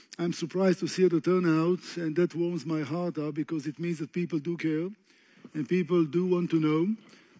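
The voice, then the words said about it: Speaks with a noticeable accent. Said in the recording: “I do have an accent, by the way, as some of you can tell already. Get used to it. It's not going to change for the next hour.”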